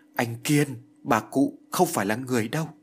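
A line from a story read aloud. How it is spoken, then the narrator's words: Stammering, broken speech. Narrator (Vietnamese): Kiều Như lắp bắp, miệng nói như ngắt quãng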